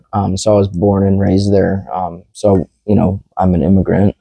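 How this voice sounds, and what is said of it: Alabama Southern twang accent. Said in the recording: “this accent that you're hearing, or twang, as people call it, is from Alabama”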